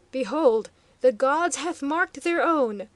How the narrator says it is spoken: cried the high priest, his harsh tones fairly filling the hall

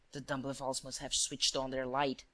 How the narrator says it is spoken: muttered Shears

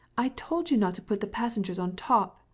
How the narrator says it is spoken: cried the little girl in English

